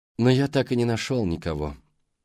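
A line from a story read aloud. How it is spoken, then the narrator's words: Sighing. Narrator (Russian): вздохнул он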